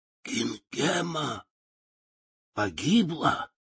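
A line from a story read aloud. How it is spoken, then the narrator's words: Wicked witch whispering. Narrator (Russian): прошептала злая волшебница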